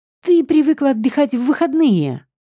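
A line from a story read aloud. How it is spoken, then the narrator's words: Exclaimed in realization. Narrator (Russian): воскликнул кот, догадавшись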